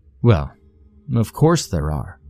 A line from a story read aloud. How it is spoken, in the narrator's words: said